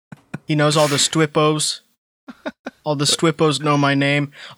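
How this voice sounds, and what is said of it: Imitates another person's bragging voice. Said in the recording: “talks like BB doing a Trump impression ... he's like a braggart, like Trump”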